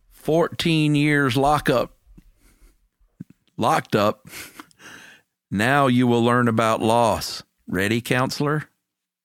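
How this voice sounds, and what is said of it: Put-on Southern US accent. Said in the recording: “read it in a Southern accent.”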